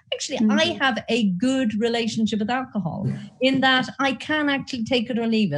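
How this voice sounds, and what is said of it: Irish accent. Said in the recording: “you might have picked up from my accent, I'm Irish.”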